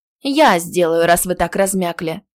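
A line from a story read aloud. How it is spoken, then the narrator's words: Irritated sigh. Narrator (Russian): раздраженно вздохнула Элька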